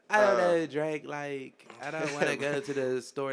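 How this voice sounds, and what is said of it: Valley girl voice. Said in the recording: “Valley girl”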